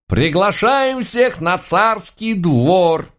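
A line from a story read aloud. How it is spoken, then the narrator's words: Loud shout. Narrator (Russian): громко прокричал горох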